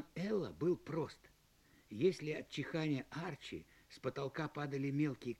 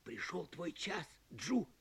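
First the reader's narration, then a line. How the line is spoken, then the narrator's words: Whisper. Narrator (Russian): прошептал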